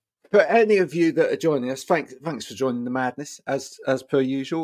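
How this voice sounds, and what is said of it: Usual voice. Nothing is said of it.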